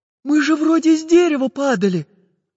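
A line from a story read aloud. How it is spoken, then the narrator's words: Frightened girl. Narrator (Russian): испуганно сказала Настенька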